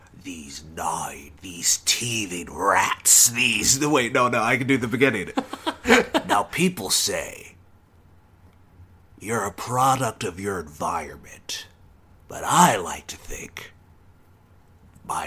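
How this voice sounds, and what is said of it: Imitates another person's voice. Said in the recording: “this is my Jack Nicholson. You want to hear my Jack Nicholson impression?”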